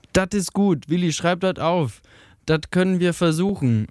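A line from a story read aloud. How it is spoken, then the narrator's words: Called out. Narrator (German): rief eine Stimme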